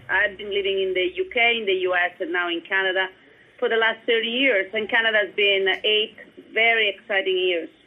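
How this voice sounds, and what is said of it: Italian accent in English. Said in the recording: “As you can hear from my accent, I'm Italian”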